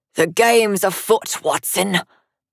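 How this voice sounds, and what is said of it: Put-on London accent. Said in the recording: “in the accent of a Londoner.”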